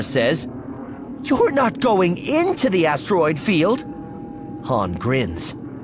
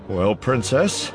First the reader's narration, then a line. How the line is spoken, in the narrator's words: Han sighs